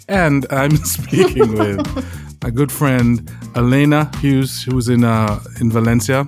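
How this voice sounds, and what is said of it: Put-on radio announcer voice. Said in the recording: “This is my radio voice”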